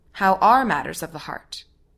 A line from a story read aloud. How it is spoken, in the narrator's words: she asks